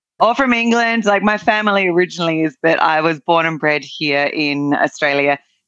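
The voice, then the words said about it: Australian accent. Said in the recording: “as you can probably tell by the accent, although sometimes people are like, are you from New Zealand?”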